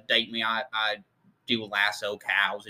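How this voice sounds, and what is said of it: Exaggerated fake Southern accent. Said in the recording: “He had that weird ass accent. It sounded like he was trying to like it was fake ... fake being Southern or something. Like, it was Southern, so bad.”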